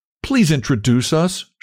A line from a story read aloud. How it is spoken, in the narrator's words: she cried